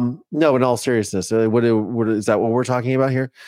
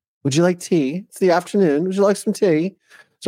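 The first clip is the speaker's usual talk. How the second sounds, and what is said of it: Bad put-on English accent. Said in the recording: “that's a very bad English accent”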